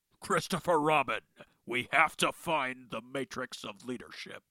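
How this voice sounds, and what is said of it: Peter Cullen Optimus Prime impression. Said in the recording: “Mr. Peter Cullen was none other than the voice of Eeyore”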